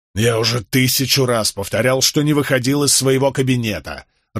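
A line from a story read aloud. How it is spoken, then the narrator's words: Irritated snap. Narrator (Russian): раздраженно бросил Болейн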